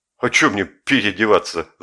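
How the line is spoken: Laughing loudly. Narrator (Russian): захохотал Жеглов

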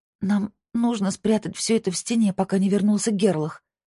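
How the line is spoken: Moaning. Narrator (Russian): простонала она

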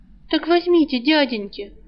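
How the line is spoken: Hopeful pleading. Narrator (Russian): взмолилась обнадеженная девушка

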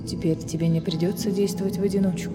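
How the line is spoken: Plain. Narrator (Russian): ответил прежний король

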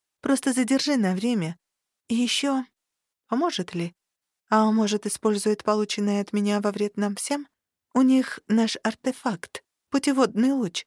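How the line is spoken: Uncertain admission. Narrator (Russian): призналась я неуверенно

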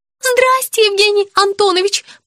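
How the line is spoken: Squeaky. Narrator (Russian): пропищала Вера

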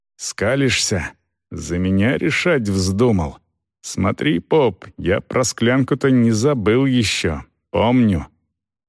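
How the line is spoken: Angry hiss. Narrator (Russian): прошипел зло

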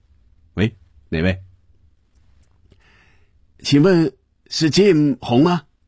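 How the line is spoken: Slight accent. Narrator (Chinese): 似乎还有些口音

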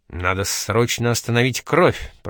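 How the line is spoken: Mutter. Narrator (Russian): пробормотал доктор

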